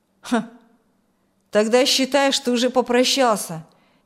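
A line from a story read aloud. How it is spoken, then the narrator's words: Vague grunt. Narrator (Russian): неопределенно хмыкнул Машков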